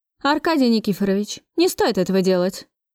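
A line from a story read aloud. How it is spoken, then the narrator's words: Stern. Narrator (Russian): Строго сказал Максим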